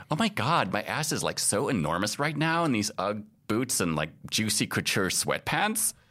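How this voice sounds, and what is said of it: Young California Valley girl voice. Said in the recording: “young girl TikTok voice ... young girl California Valley girl voice”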